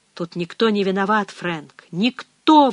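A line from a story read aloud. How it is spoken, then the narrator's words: Exclaimed. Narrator (Russian): воскликнул священник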